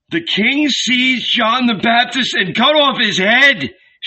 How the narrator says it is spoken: shouted Lazarus in a single breath

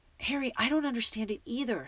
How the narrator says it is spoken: said Hermione desperately

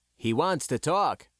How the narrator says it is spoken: Ira said

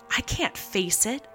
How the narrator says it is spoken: whimpered Lowndes

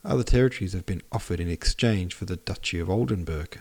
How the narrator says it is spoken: said Prince Bolkonski

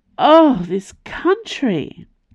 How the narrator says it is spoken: Calyx moaned in frustration

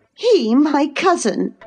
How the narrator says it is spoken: cried Cathy with a scornful laugh

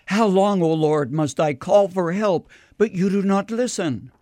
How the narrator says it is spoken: Habakkuk, who cried out

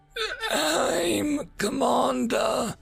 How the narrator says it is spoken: she croaked

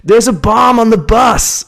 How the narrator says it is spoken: I just yelled it out

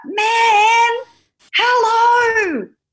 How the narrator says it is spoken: Trin screams out

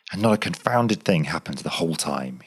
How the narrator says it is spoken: he growled aloud

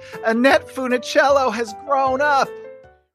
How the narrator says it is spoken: he shouts to the heavens

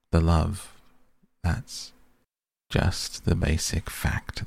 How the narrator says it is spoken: the old woman said, but her voice was gentle

